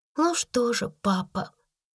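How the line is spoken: Soft. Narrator (Russian): мягко проговорила Сара

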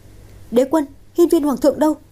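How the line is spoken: Cry. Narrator (Vietnamese): tiếng Nguyệt kêu lên

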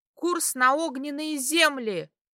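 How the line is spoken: Shouted. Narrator (Russian): крикнула

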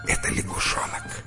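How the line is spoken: Whispered. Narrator (Russian): жена шепнула ему ответ

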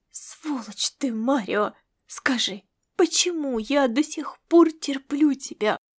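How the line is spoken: Strangled angry whisper. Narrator (Russian): сдавленно прошептала она

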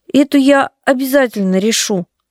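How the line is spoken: Uncertain. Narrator (Russian): неуверенно сказала Настя

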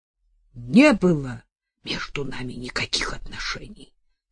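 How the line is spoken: Sudden tense whispered outburst. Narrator (Russian): напряженным шепотом вдруг выкрикнул Боровко

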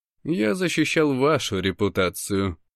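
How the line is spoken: Calm correction. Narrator (Russian): поправляет спокойно

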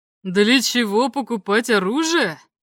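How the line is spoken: Said mockingly. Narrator (Russian): насмешливо сказал Чернобородый

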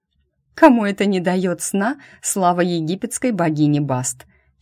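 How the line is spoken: Giggling guess. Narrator (Russian): хихикнула я и предположила

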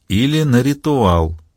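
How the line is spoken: Quiet. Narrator (Russian): тихо произнесла Маура

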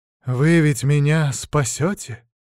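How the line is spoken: Asked in a beautiful voice. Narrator (Russian): красивым голосом спросил он

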